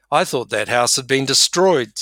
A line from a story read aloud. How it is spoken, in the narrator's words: said Edmund